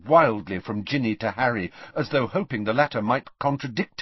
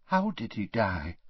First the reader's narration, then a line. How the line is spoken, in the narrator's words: whispered Tonks